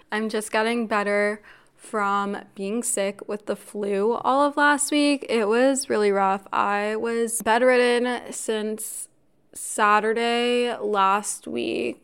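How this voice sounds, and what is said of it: Congested, slightly raspy voice. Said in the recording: “I sound a bit congested or my voice is a little raspy.”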